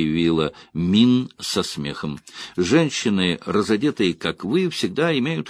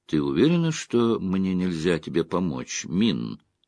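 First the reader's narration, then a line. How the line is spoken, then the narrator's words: Quiet question. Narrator (Russian): тихо спросила Эгвейн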